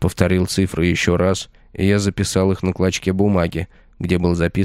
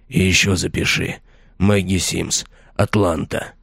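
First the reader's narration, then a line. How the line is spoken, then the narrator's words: Hoarse voice. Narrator (Russian): хрипло проговорил Мэтьюс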